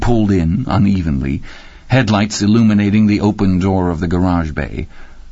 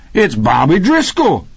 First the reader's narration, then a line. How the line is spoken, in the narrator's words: Rocky cried